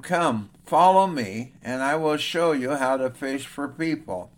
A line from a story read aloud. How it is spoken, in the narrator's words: Jesus called out to them